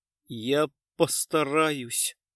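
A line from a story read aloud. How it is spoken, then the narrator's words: Tearful. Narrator (Russian): сквозь слезы сказала девушка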